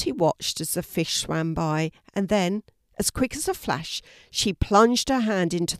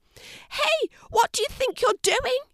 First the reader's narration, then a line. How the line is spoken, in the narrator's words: spluttered the fish